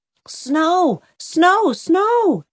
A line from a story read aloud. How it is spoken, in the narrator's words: shouted Jem